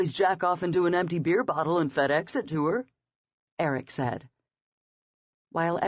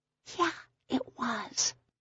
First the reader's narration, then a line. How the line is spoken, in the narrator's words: she whispered